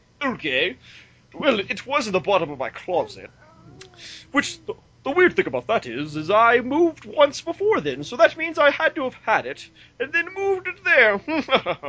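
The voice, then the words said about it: Pompous imitation of another person's voice. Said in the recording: “do my best Jarrett voice. ... I am pompous, aren't I?”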